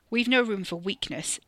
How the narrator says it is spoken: Tally snapped

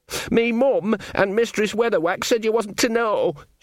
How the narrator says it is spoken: Sean wailed

